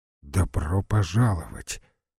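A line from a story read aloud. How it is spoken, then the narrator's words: Quiet, several voices. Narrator (Russian): тихо повторили Сденко и Петр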